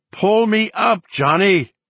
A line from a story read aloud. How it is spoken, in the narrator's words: he screamed